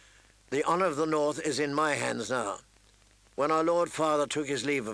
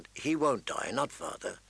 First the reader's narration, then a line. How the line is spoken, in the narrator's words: he said calmly